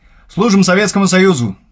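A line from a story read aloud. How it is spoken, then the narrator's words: Loud unison shout. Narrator (Russian): дружно гаркнули мы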